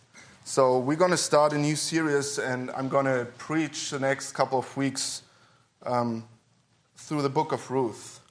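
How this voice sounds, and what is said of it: Throaty, weaker voice than usual. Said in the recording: “my voice is still a little, I guess you call it throaty, so it's not as powerful as usually”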